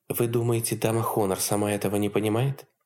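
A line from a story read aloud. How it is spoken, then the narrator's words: Asked softly. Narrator (Russian): мягко спросила Елизавета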